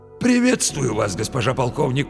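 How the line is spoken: Hoarse wheeze. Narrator (Russian): просипел он

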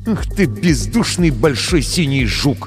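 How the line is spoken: Through gritted teeth. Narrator (Russian): процедил Крисмас сквозь зубы

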